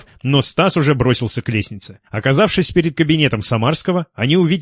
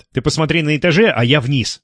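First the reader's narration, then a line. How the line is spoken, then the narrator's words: Quick response. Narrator (Russian): быстро среагировал Лев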